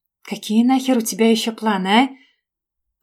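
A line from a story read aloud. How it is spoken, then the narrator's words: Whispered growl. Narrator (Russian): Шепотом прорычал на меня мужчина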